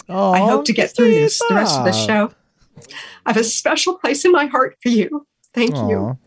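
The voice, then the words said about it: Emotional, teary voice. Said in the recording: “get teary-eyed”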